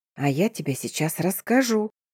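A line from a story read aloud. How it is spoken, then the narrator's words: Whispering. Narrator (Russian): шепотом проговорил Даня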